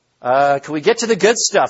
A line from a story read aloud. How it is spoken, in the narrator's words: shouts